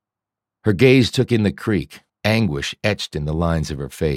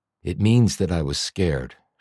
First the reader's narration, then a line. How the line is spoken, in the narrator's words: she said in a low voice